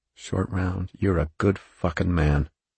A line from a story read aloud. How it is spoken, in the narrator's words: Mellis whispered